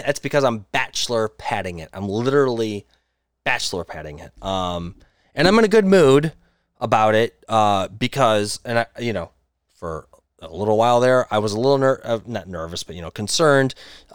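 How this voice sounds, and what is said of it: Talking louder, almost yelling. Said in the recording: “I'm probably talking a little bit louder. I'm yelling.”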